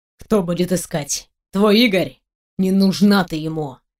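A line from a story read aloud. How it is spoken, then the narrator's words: Hissed through teeth. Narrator (Russian): Шиплю сквозь зубы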